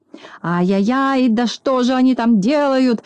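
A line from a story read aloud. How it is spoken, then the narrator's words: Furious shout. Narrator (Russian): закричал Клопс, наливаясь от злости кровью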